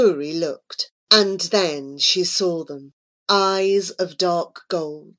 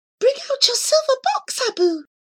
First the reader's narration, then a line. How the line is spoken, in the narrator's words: cried Muscoori joyfully